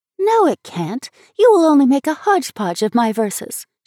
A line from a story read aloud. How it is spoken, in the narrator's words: she answered excitedly